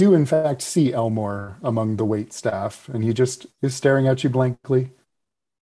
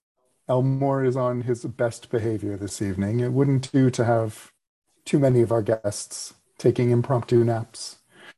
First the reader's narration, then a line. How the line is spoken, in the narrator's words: Theodora will giggle as well, and she'll say